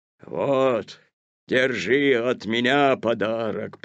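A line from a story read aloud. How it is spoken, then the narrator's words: Growling bear. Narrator (Russian): прорычал медведь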